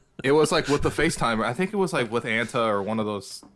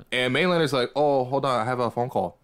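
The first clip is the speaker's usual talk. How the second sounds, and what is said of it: Imitates another person's accent. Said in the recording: “That's actually his accent. So that's a great impersonation.”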